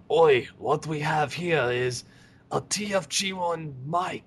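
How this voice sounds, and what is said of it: Poor Australian accent, sounds French. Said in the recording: “That sounds very French ... I can't do an Australian accent.”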